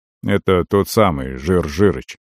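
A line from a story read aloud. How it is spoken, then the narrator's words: Quiet reminder. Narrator (Russian): тихо напомнил Хурм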